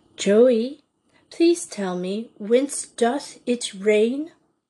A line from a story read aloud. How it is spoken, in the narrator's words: Paula had remarked slowly and distinctly